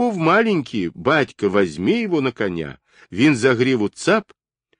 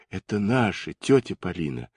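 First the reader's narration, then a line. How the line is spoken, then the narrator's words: Spoken quietly. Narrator (Russian): проговорила она тихо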